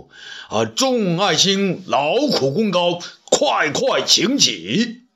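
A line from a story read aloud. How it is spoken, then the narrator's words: Loud raised voice. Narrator (Chinese): 汉武帝高声说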